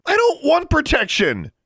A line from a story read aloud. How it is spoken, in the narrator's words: yelled